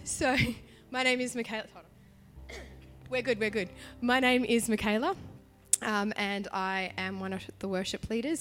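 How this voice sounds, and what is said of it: Partially lost, strained voice. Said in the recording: “I'm partially losing my voice as well. I've been a little bit sick and I sang. And so if I start coughing”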